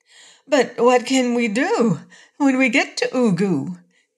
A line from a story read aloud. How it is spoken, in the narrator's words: inquired the Cookie Cook anxiously